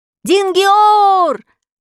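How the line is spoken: Crowd shouting. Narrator (Russian): закричали все пришедшие

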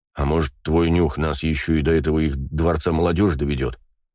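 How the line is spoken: Snorting scoff. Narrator (Russian): хмыкнул бегемот

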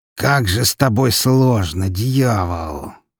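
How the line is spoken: Near groan. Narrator (Russian): почти простонал он

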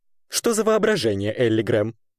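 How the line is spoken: Praise, then laughter. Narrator (Russian): похвалил референт и рассмеялся

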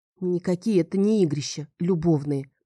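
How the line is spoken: Grumbling mutter. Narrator (Russian): пробурчала я

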